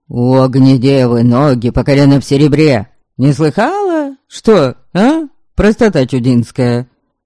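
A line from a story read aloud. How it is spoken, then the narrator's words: Barked. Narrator (Russian): Рявкнул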